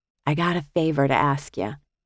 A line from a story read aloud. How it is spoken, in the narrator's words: whispered conspiratorially